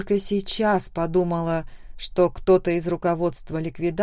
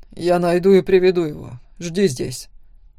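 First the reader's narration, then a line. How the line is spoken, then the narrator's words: Commanding tone. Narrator (Russian): сказал он почти приказным тоном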